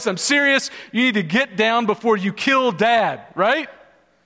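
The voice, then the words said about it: Stern, authoritative dad voice. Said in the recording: “I'm using my dad voice. This is dad voice.”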